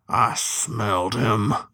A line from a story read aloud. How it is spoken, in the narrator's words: the other sheriff muttered, grim as a gravedigger